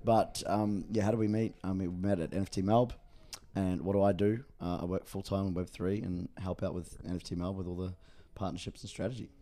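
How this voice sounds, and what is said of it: Rough, worn-out hungover voice. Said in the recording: “I'm still a bit hungover from last night, and my voice sounds like shit.”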